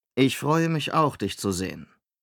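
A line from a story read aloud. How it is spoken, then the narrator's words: Dry. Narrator (German): sagte Rodan trocken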